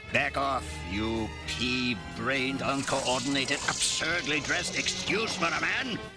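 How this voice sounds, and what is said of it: Vague German accent. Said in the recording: “I guess that vague German accent is very reassuring.”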